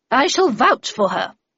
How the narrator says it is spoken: said Miss Havisham in a thunderous tone

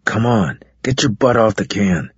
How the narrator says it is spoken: he muttered harshly into my ear

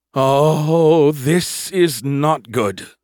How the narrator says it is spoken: Skippy groaned

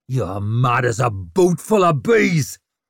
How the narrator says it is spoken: snarled over his shoulder

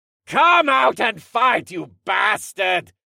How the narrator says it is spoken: the boss yelled

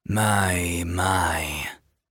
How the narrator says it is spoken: a raspy voice, abrading his senses like iron wool on rust

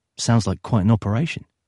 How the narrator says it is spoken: he said

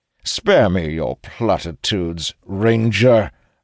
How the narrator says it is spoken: Rallos says sharply

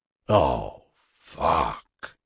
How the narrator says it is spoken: he whispered

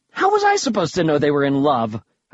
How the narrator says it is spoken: snapped

